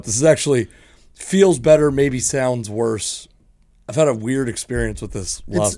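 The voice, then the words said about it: Damaged, rough-sounding voice. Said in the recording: “my voice is still fucked up ... shot voice”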